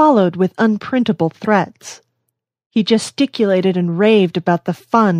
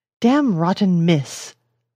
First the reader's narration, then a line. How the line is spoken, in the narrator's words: muttered the sarcastic medico